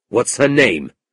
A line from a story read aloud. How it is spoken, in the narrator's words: asked Ralph, staring at Gride coldly